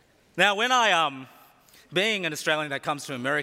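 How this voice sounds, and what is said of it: Usual voice. Nothing is said of it.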